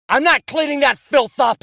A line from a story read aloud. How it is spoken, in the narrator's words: shouted